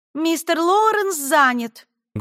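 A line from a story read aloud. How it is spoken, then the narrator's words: Loud. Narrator (Russian): громко сказала женщина за стойкой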